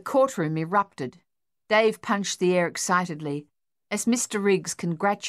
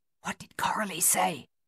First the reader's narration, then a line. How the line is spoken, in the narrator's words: Luther whispered